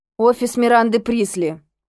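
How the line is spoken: Displeased tone. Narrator (Russian): ответила недовольным тоном

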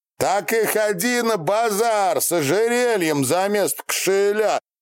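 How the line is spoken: Piglike squealing shout. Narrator (Russian): кричал по-поросящью взвизгивая Фролк Минаев

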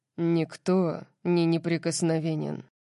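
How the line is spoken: Rumbling tone. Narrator (Russian): сказал Орион ракочущим тоном

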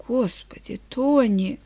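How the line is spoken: Trembling babble. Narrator (Russian): Дрожащим голосом пролепетала

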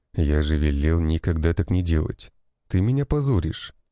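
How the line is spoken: Calm, resigned. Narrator (Russian): говорил я спокойно, так как уже смирился

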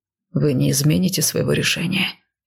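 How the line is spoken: Tired resigned question. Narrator (Russian): Устало, словно сдавшись, последний раз спросил он

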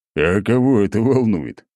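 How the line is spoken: Snort. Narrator (Russian): хмыкнул Ратмир

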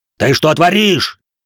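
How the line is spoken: Panicked yell. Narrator (Russian): заорал впавший в панику Юэда

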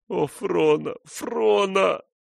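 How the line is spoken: Sobbing. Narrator (Russian): рыдал он

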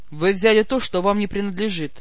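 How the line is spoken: Grim lord. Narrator (Russian): мрачно отозвался повелитель

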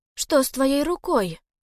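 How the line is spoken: Frightened. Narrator (Russian): испуганно проговорила Элси

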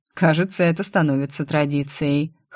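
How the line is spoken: Amused, teasing snort. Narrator (Russian): хмыкнул герцог, бесстыдно наслаждаясь смущением девушки

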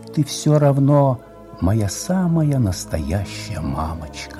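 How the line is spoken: Whisper. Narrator (Russian): шептала

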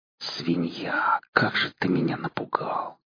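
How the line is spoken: Whispered. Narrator (Russian): прошептал я, думая не столько о кабане, сколько о Макгрегоре

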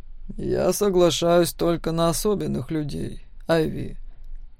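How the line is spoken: Quiet, male voice. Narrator (Russian): тихо сказал мужчина

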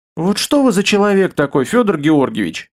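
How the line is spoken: Sigh. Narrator (Russian): вздохнул

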